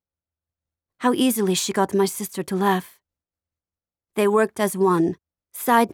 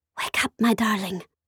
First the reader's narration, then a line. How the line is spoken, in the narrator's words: Sophia whispered in my ear